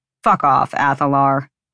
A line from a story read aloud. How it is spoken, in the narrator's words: Rune growled